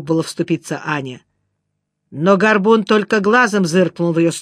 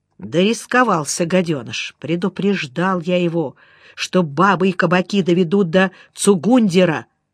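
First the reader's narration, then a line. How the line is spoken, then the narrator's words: Muttered through teeth. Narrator (Russian): сквозь зубы пробормотал Горбун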